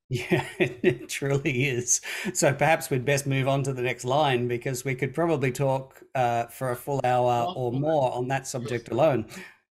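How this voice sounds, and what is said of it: Australian accent. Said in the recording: “I'm bringing my crass Australian accent into the pronunciation of the Latin”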